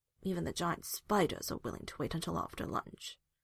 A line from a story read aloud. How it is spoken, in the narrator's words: Hawk grumbled